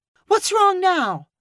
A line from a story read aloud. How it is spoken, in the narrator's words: Keith's wife cried